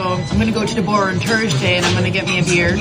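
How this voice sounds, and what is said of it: Irish accent, dropped TH sounds. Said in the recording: “So do the accent. ... Irish ... accent. ... They don't say the THs.”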